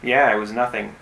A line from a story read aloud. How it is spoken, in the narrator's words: said sarcastically